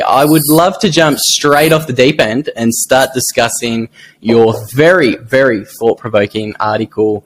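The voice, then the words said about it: Strong broad Australian accent. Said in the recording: “your accent kills me ... You sound like you're fucking... The Matters Bogan ... That's why my accent is so strong”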